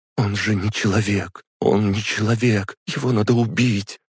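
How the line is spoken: Tearful, sobbing. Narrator (Russian): говорила она сквозь слезы и всхлипы

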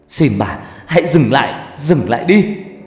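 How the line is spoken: Screaming in tearful pain. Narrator (Vietnamese): cảm giác này đau vô cùng, đau đến mức tôi phải gào lên trong nước mắt

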